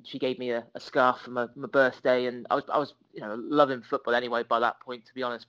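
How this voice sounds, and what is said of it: Southwest English accent, not Liverpool. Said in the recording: “people can probably tell from my accent, I'm not from Liverpool originally. I grew up in a place called Bath in the southwest of England”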